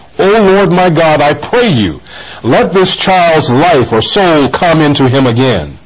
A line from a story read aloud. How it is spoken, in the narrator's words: cried unto the Lord and said